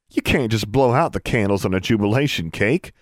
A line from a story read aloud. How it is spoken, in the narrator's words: laughed Forbearance